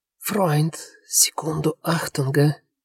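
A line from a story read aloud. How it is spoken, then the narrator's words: Whistling whisper. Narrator (Russian): донесся до него свистящий шепот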